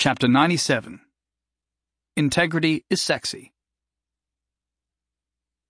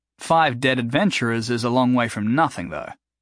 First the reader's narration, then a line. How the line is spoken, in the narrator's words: Jason said